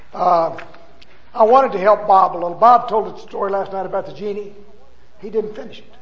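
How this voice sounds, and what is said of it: Hoarse, strained voice. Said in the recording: “Kind of losing my voice.”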